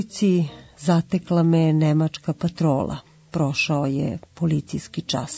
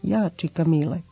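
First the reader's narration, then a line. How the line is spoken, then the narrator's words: Quiet, humble young man. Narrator (Serbian): jedan mladi glumac tihim glasom snishodljivo je odgovorio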